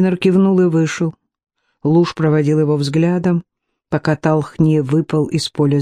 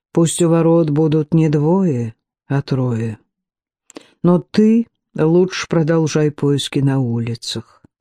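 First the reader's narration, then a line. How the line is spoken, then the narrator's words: Quiet. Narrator (Russian): Старх негромко произнес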